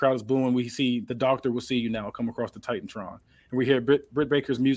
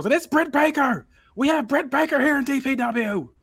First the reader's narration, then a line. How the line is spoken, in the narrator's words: Joey Styles yells